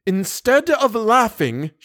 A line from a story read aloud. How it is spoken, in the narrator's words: she cried indignantly